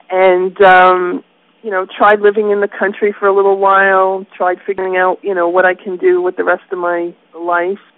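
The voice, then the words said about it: New York accent. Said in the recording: “I moved out in New York, just in case people can't figure out where my accent is from”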